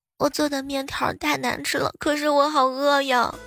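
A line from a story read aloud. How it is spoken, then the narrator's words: Tearful little girl. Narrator (Chinese): 呆萌的小丫头啊，哭哭啼啼的来了一句说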